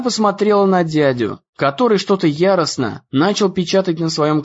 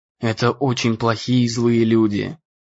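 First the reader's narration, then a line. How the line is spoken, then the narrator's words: Quiet. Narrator (Russian): тихо сказал он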